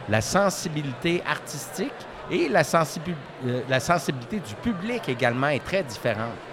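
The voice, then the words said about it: Canadian French accent. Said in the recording (French): “j'ai un accent, là, vos auditeurs l'entendent très bien présentement”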